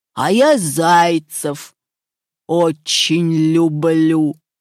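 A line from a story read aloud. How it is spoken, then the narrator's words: Wolf's growl. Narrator (Russian): зарычал волк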